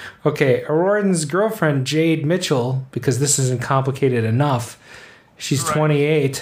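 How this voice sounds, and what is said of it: Usual voice. Nothing is said of it.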